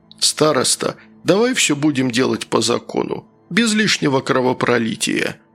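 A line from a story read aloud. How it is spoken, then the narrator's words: Weary sigh, bearded man. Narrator (Russian): устало вздохнув, произнес бородач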